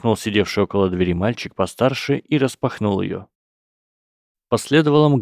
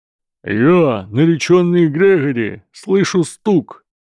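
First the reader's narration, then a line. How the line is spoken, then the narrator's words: Roaring. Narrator (Russian): проревел мистер Гойл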